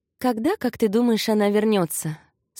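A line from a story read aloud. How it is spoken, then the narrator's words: Plain. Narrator (Russian): спросила она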